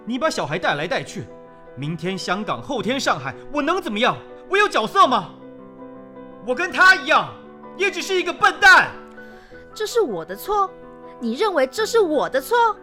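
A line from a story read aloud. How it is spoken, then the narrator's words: Agitated loud shouting. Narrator (Chinese): 张向成激动起来，仿佛跟世界宣告一般，他在马路上大喊着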